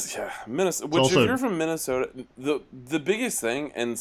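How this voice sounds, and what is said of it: Usual voice. Nothing is said of it.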